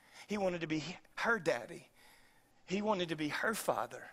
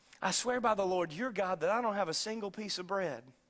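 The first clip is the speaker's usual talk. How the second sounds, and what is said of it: Put-on Southern woman's accent. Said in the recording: “She was a southern woman. ... you can hear her accent”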